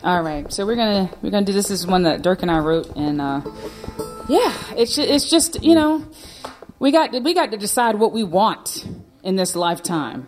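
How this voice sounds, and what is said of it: North Carolina Southern US accent. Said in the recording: “I start sounding like I'm from North Carolina ... this accent doesn't come out to play unless I'm back in the States”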